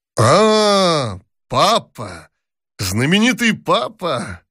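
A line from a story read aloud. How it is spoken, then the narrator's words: Cheerful shout. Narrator (Russian): Весело закричал он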